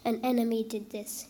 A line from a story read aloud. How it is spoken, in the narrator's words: he replied